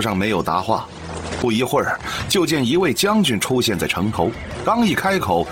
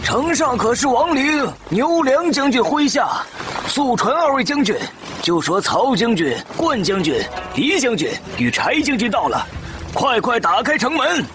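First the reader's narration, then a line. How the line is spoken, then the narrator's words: Calling up to walls. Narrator (Chinese): 曹参让从事中郎上前叫城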